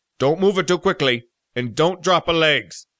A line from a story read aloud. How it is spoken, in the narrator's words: barked